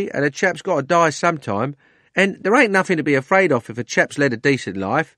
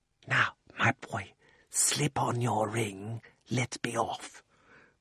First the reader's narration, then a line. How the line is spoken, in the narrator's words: the old man put his mouth so close to Diggory's ear that it tickled and whispered